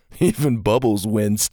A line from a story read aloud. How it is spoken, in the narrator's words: Gavin chuckled